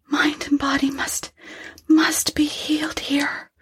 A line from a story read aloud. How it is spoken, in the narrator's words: whispered the girl